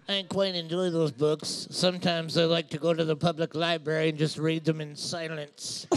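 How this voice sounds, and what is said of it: Imitates another person's voice. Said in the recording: “really good impersonation”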